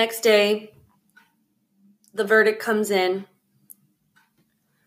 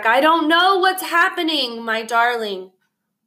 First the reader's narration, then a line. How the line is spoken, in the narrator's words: He just shouts back